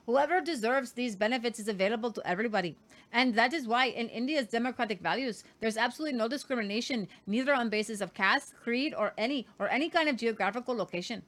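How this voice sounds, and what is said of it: Unconvincing put-on Indian accent, Modi. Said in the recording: “That is not a good Indian accent ... That was not ... good ... It sounded a little French to me.”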